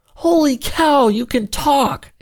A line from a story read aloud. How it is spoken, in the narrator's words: exclaimed Ansel